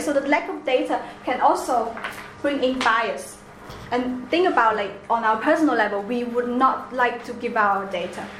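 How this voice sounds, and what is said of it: Chinese accent. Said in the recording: “my accent, like Chinese accent”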